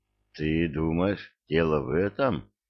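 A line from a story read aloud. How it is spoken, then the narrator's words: Timid, secretly proud question. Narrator (Russian): робко спросил он, втайне гордясь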